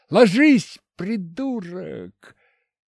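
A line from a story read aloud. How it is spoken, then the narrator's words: Yelled. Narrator (Russian): заорал я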